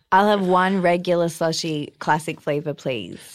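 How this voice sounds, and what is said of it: Australian accent. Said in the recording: “Is that an accent I detect? ... I'm Australian.”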